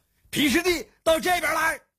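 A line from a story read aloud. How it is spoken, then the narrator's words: Shouting. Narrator (Chinese): 姬庆虚大叫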